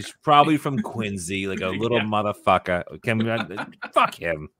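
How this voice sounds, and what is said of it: Exaggerated, poor Boston accent. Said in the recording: “I'm just doing a shitty Boston accent”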